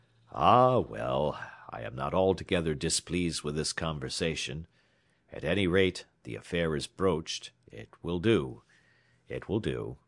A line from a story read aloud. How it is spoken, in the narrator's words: the American murmuring